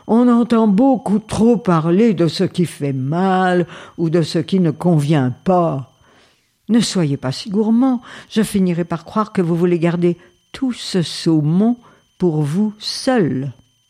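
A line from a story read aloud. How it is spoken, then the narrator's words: Scolding. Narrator (French): gronda-t-elle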